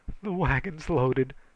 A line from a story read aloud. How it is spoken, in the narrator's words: panted Joe Emerson